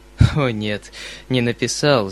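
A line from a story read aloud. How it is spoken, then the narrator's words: Laughing. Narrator (Russian): засмеялся Иван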